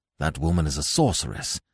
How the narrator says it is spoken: muttered Nayland Smith

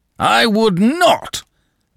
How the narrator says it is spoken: Danton broke in, bellowing

